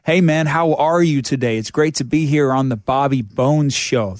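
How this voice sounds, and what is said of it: Put-on American accent, heavy R's. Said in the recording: “The American version of English... America's American just doing the most all the time. Just your R's. How, like, car? It's so hard to say car.”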